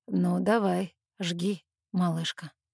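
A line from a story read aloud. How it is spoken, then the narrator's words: Husky. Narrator (Russian): с хрипотцой произносит он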